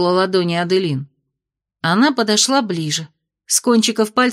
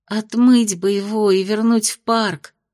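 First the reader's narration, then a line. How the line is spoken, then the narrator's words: Sighing. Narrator (Russian): вздохнула Майя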